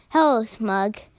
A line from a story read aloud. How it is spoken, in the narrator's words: said Rusty's reply